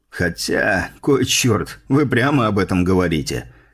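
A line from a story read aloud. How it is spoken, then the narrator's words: Snorting. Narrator (Russian): хмыкнул вице-адмирал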